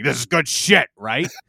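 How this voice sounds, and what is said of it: Imitates another person's voice. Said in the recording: “did my best Vince McMahon impression.”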